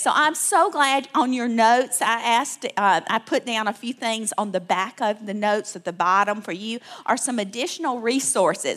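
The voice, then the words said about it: Southern US accent, Alabama. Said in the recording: “you hear this accent, I can't help it, y'all. I'm from Alabama, South Alabama.”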